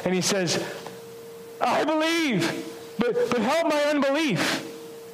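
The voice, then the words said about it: Theatrical dramatic delivery. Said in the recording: “in my best theatric voice”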